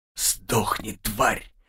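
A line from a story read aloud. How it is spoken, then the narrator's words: Hateful whisper, bloodied lips. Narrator (Russian): прошептали разбитые в кровь губы юноши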